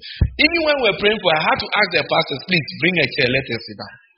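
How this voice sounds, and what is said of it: Heavy accent. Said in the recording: “Me, I'm speaking with my heavy accent.”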